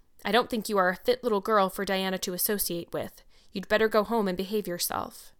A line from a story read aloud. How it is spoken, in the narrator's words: So she said, coldly and cruelly